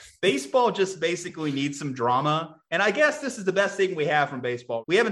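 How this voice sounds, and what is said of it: Usual voice. Nothing is said of it.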